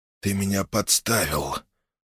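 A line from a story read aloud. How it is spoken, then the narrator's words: Hoarse outburst. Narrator (Russian): Хриплый голос вырвался из глотки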